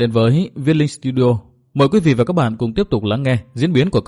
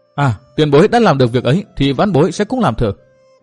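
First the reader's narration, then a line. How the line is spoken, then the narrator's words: Excited exclamation. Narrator (Vietnamese): Từ Mã Minh reo lên một tiếng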